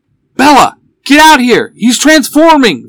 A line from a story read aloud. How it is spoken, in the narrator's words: Van shouts from the alley